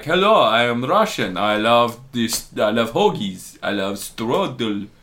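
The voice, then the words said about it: Deliberately bad put-on Russian accent. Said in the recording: “talking like this in a really bad Russian accent ... I just said it in a weird way”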